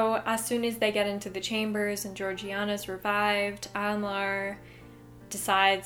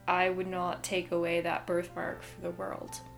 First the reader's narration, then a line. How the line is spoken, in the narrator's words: he mutters to himself